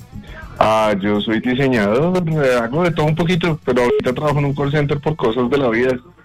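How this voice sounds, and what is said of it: Deep radio announcer voice. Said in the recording (Spanish): “voz de locutor”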